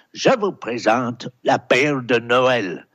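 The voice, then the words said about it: Put-on Scottish-accented French. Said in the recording (French): “mon tonton de Glasgow ... mon tonton qui dit avec son accent”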